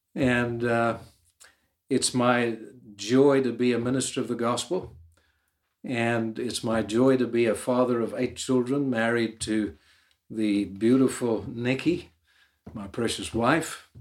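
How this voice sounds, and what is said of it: Irish accent. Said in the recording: “I'm an Irish man with somewhat of a different accent”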